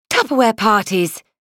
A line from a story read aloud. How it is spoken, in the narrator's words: Irene had announced triumphantly